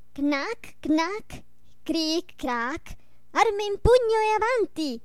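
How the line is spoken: Ringing shout. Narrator (Italian): gridò con voce squillante

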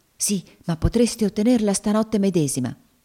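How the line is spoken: Impetuous woman exclaiming. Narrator (Italian): esclamò la donna con impeto

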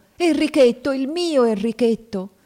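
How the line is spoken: Shrieking. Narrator (Italian): strillando

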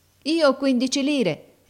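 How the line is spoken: Pleading boy. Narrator (Italian): rispose il ragazzo supplichevole

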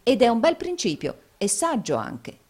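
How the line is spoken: Plain. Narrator (Italian): disse Nicola

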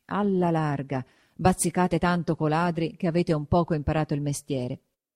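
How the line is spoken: Muttering through teeth. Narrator (Italian): mormorava tra denti

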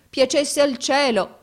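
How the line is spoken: Exclaimed while crying. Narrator (Italian): esclamò mio fratello piangendo

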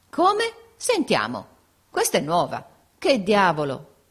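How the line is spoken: Group exclaiming together. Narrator (Italian): esclamarono tutti

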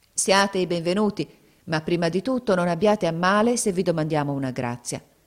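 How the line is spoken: Grave, serious tone. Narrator (Italian): Zobeida disse loro con tuono grave e serio come a lei conveniva

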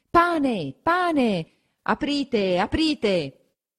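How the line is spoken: Crowd shouting outside. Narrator (Italian): La gente comincia a affollarsi di fuori e a gridare

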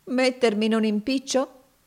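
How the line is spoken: Ironic exclamation. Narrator (Italian): esclamò Finea con una certa espressione singolare ed ironica

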